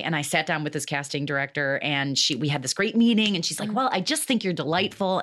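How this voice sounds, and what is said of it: Nasal Michigan Midwestern accent. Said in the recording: “you can hear my accent now... it goes up into the nose, the Michigan nose a little bit... this whole Midwest thing”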